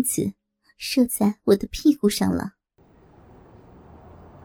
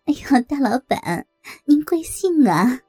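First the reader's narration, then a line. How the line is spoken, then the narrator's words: Flirtatious laughing. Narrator (Chinese): 梅姐浪笑着说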